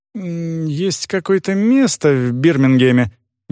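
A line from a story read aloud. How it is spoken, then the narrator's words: Uncertain reply. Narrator (Russian): неуверенно ответила Цветик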